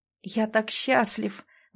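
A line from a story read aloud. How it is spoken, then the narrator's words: Breathless exhale. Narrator (Russian): выдохнул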